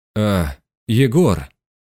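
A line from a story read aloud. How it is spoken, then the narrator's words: Hoarse rasp. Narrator (Russian): прохрипел он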